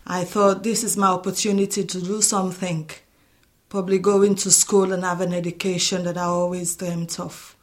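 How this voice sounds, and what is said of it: African accent mixed with Liverpool. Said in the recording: “my accent hasn't changed. It's just sort of got mixed with the African and the Liverpoolian together.”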